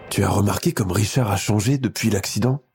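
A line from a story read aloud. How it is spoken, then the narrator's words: Worried murmur. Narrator (French): murmure sa mère à son père, l'inquiétude teintant ses mots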